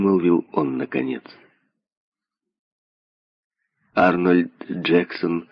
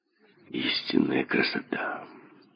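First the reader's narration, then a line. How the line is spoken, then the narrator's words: Whispered. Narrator (Russian): прошептал Арнольд Джексон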